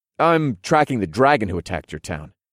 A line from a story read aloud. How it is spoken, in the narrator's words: I informed him in a casual tone